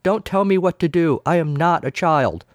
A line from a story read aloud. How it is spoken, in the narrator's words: It was all Brent could do not to shout